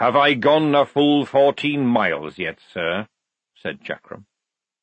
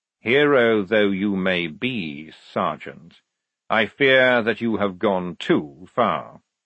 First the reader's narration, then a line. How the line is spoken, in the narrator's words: said calmly